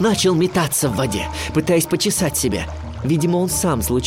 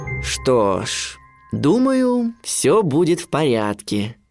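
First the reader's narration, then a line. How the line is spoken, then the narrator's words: Drawling father. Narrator (Russian): протянул отец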